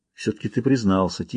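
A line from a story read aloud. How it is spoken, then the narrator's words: Quiet. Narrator (Russian): тихо сказал он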